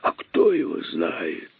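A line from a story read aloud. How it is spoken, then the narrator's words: Hissed. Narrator (Russian): прошипел тот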